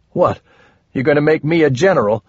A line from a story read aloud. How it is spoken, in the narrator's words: Cordy laughed